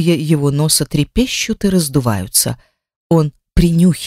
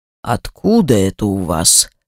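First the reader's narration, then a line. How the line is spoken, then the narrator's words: Threatening tone. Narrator (Russian): говорит он угрожающим тоном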